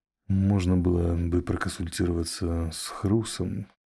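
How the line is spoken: Doubtful mutter. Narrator (Russian): в сомнении пробормотал Терна

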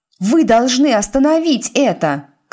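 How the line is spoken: Shout. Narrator (Russian): крикнула Тиффани

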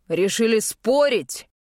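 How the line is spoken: Gruff bark. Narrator (Russian): рявкнул он

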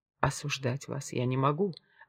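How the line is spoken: Plain. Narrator (Russian): ответила она

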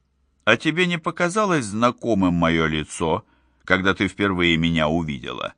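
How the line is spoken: Plain question. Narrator (Russian): спросил Фоллер

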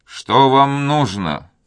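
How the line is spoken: Gloomy voice. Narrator (Russian): спросил Дон Фернандо мрачным голосом

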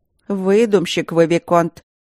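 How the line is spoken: Menacing. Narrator (Russian): грозно сказала медсестра

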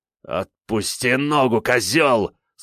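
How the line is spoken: Growl through teeth, captive necromancer. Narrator (Russian): сквозь зубы прорычал схваченный некромант

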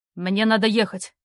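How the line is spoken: Barking, barely restrained. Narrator (Russian): рявкнул Роу, с трудом сдерживая себя

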